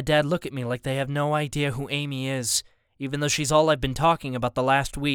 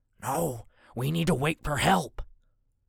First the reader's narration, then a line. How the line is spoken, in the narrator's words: Dad whispers